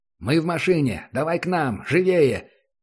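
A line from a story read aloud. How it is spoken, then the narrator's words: Shouted over radio. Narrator (Russian): крикнул в эфир первый Центурион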